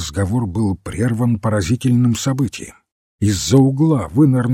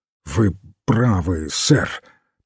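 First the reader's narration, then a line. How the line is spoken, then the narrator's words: Strained, choked voice. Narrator (Russian): произнес сдавленным голосом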